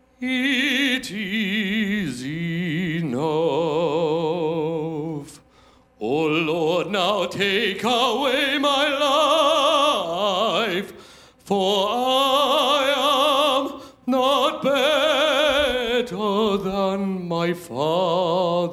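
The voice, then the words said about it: Worn-out, strained singing voice. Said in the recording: “my voice is shot”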